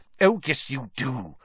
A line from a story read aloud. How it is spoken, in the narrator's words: said Professor McGonagall irritably